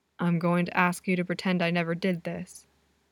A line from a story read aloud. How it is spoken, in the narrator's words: Adam continues, his voice pitched lower